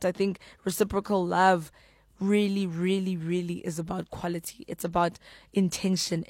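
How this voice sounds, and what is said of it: Tired, worn-out voice. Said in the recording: “I don't have a voice ... you can hear the voice sounds tired, but it's because my voice is tired ... I used it too much this week.”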